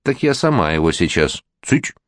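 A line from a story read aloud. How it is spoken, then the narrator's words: Stern warning. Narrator (Russian): строго предупредил кум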